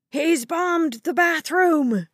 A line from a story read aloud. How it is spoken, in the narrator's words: someone shouted